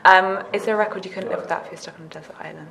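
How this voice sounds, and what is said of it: Strong accent. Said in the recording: “My accent is like too big.”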